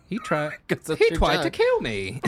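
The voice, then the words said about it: Attempted Australian accent. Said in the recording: “I was trying to do Australian.”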